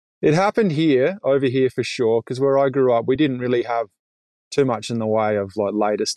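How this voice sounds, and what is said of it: Australian accent. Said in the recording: “You're going to notice from ... accent that he didn't grow up in Canada. He's from Kangaroo Island in Australia”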